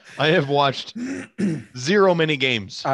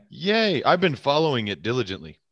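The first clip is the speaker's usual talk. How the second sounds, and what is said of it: Sarcastic enthusiasm. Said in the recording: “that was sarcasm.”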